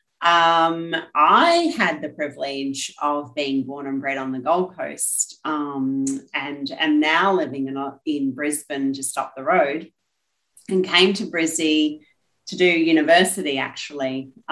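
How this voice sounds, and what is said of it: Australian accent. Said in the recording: “as you can hear from the accent, born and bred Aussie”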